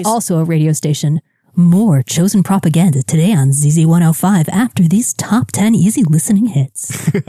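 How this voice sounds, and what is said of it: Smooth radio announcer voice. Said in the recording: “that kind of announcer voice you were just doing”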